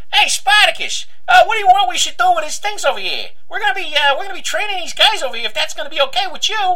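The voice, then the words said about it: Put-on Brooklyn accent. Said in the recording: “the accent thing just it's like really Brooklyn”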